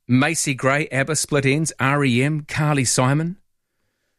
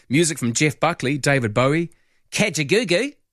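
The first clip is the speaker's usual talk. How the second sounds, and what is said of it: Put-on Australian accent. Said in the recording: “I said that with an Australian accent.”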